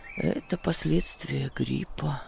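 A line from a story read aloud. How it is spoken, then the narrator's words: Muttered. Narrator (Russian): пробормотал он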